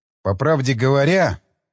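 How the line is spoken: Grumbled. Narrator (Russian): пробурчал я

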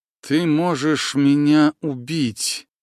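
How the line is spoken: Hissing like a snake. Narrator (Russian): змеей зашипела колдунья

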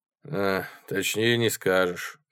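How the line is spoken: Sigh. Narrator (Russian): вздохнул я

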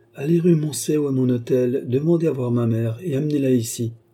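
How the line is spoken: Plain. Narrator (French): répondit-elle

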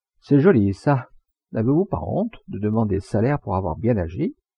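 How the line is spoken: Cheerful, kind addition. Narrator (French): elle ajouta gaiement, par manière gentille

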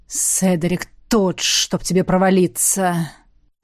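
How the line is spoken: Through gritted teeth. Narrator (Russian): процедил Дарри

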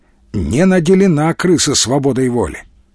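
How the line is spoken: Sad, conciliatory sigh. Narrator (Russian): с примирительной печалью вздохнул Николай

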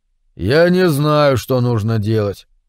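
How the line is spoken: Dejected. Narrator (Russian): уныло произнес Дэвид

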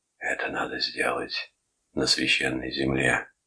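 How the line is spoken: Old man's whisper. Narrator (Russian): шептал старик

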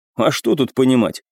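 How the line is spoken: Snorting scoff. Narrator (Russian): хмыкнул

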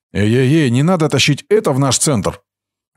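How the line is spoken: Loud angry bark. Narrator (Russian): Брахма рявкнул неожиданно сильно и зло

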